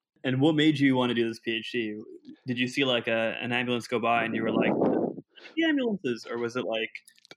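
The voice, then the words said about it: Put-on podcast host voice. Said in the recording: “what is that voice? ... Podcast voice.”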